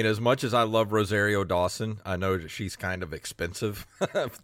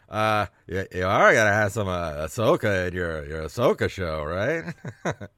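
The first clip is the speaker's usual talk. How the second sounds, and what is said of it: Imitates another person's voice, fairly well. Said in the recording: “pretty good Jeff Goldblum impression”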